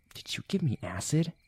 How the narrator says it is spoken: She slowly whispered into his ear

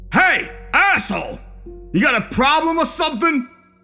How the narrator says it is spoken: Mo reacted aggressively, shouting across the street towards me

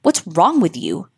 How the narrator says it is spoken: Ashley snapped in irritation

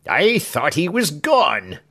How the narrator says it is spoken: Craggs, whose teeth were not of the best, partially choking, when he cried out with great animation

